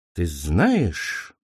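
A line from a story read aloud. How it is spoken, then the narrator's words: Thoughtful. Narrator (Russian): задумчиво произнес голос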